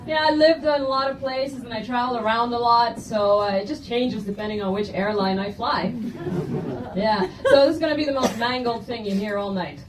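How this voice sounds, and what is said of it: Mixed, hard-to-place accent. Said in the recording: “I see a lot of you trying to place my accent. It's airport.”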